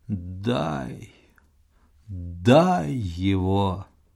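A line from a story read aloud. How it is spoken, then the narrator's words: Dying whisper through moans. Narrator (Russian): сквозь стоны и вздохи, я слышал ее умирающий шепот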